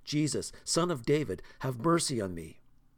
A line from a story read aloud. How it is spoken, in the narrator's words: he shouted all the more